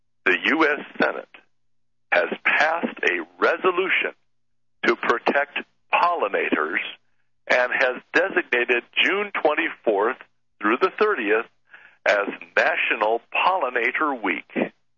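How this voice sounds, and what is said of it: Formal announcer voice. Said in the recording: “I have to put on the proper voice so that I am a proper announcement of this important event.”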